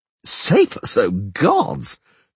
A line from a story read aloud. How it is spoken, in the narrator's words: the troubadour laughed